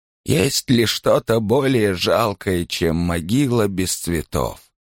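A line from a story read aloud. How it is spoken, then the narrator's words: Plain. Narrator (Russian): ответила она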